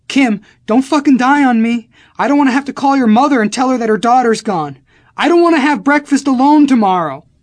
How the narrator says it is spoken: I was frantically screaming

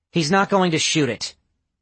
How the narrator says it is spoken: Kane snapped

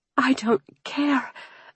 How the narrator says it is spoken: I hissed

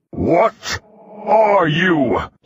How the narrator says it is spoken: He roared

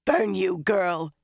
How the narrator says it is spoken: she rasped

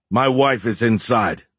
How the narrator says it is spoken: Beckham yelled

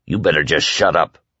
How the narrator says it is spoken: Whitney said gruffly

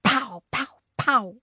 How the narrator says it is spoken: Then I heard Fudge whisper

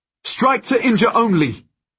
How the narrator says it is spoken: I shout

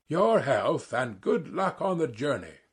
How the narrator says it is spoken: he cried to Zverkov

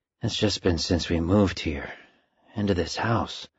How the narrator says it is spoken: he said quietly, as if to himself

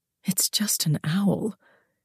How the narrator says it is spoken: I found myself murmuring out loud

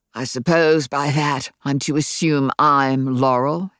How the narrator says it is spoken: asked Ben, trying to sound like himself, but his voice was tight and there was a rough growl on the edges

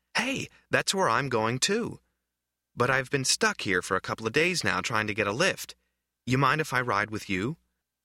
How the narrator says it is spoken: the boy exclaimed

